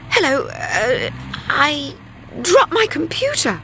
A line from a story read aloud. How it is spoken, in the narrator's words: stammered Linda